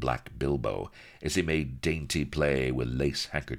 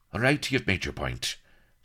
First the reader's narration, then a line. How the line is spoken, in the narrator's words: said Blood hastily